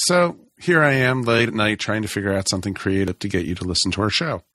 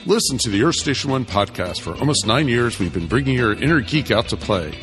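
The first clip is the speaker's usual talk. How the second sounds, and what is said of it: Announcer voice. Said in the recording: “my announcer voice”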